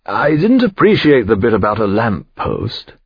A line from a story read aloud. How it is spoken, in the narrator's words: he said in his lazy Oxford drawl